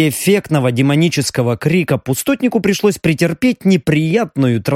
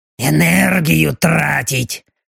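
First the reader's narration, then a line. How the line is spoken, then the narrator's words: Displeased grumbling. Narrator (Russian): недовольно заворчал демон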